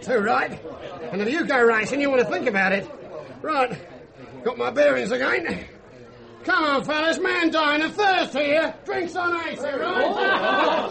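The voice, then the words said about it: Strong Australian accent. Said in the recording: “that Aussie schmo ... that is some accent”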